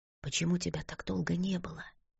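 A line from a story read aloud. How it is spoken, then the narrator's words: Whisper. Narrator (Russian): прошептала она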